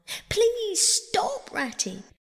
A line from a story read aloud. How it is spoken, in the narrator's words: pleaded the poor mole in anguish of heart